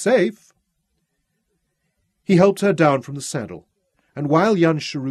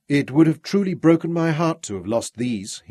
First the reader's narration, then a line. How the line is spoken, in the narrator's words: he murmured